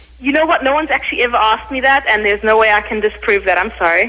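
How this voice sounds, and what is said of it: Afrikaans South African accent. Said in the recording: “That's a hot accent, though, isn't it? The Afrikaans? ... Way hot.”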